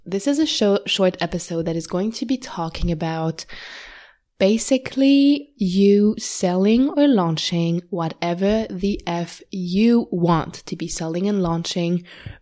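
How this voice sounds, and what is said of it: Voice off from a cold. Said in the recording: “I have a cold and talking a lot makes me cough ... my voice is a bit off”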